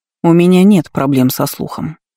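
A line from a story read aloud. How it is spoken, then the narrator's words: Cold objection. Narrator (Russian): холодно возразила Лола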